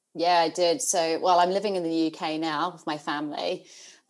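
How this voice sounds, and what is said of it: New Zealand accent. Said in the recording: “you have an accent ... my accent, I'm a Kiwi, so I'm a New Zealander”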